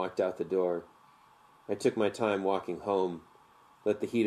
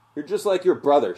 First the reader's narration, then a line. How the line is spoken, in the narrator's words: yell